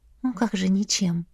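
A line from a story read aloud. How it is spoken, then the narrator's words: Gentle disagreement, mother. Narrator (Russian): мягко не согласилась ее матушка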